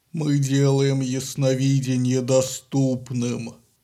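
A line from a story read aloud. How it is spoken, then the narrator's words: Deep guttural voice. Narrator (Russian): Утробным голосом щит произнес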